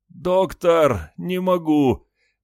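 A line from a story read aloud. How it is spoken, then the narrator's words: Groan. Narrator (Russian): простонал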